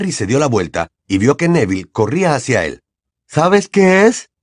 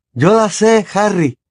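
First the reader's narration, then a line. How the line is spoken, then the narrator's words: Panting exclamation. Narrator (Spanish): exclamó alguien que llegaba jadeando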